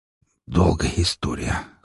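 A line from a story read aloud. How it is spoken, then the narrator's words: Hoarse, forced out. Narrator (Russian): хрипло выдавил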